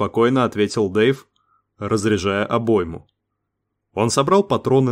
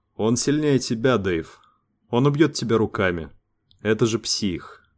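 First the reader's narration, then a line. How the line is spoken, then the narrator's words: Quiet speech. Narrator (Russian): Тихо сказал Лукас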